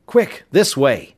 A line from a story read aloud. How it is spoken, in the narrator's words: Tom exclaimed